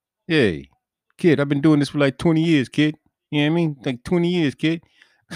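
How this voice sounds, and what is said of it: Badly done New Jersey accent. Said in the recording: “That's a horrible Jersey accent.”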